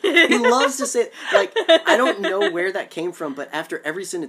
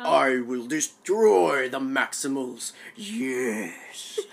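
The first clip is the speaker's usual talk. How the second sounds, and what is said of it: Megatron villain character voice. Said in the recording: “What does Megatron sound like”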